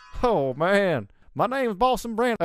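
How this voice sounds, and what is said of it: Character voice with an accent. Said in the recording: “I still have the accent, though.”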